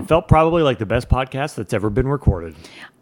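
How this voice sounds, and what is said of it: Sarcastic delivery. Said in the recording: “You're being sarcastic.”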